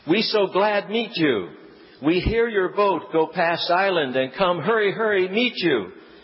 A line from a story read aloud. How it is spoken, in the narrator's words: exclaimed